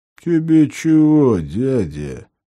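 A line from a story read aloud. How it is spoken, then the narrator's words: Deep hoarse gang leader. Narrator (Russian): поинтересовался густым хрипловатым голосом мордатый вожак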